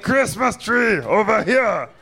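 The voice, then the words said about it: Arnold Schwarzenegger impression. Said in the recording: “You guys probably thought Arnold Schwarzenegger was here for a second, but it was just me doing an impression of Arnold Schwarzenegger in Running Man”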